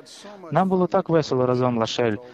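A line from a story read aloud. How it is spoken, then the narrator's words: Plain. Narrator (Ukrainian): сказала вона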